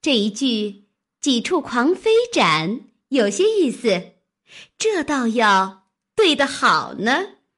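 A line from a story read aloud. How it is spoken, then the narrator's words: Laughing. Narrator (Chinese): 湘云笑道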